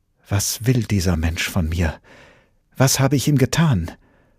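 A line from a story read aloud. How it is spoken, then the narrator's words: Distressed, blurted out. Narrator (German): mit bedrängter Stimme stieß sie hervor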